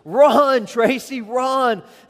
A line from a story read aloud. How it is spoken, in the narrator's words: All the parents were yelling